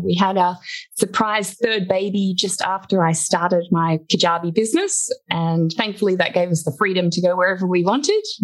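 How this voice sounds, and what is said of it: Australian accent. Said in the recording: “an Australian. Can't tell by the accent.”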